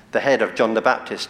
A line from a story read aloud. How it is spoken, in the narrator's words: she answered